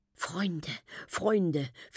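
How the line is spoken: Tender whisper. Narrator (German): flüstert sie zärtlich

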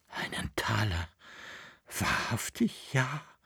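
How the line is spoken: Breathless, excited, fearful boy. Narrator (German): hauchte der Knabe, vor Erregung, vor Angst und Freude

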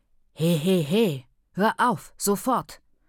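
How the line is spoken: Quiet hiss in Shona. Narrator (German): zischte Ntombi leise in Shona

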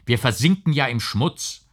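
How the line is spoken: Called out. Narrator (German): rief er

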